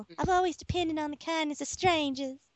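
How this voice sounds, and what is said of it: Put-on Southern Belle accent. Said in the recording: “I have to get my Florida panhandle accent ... It's more of a Southern New Orleans type ... Southern Belle”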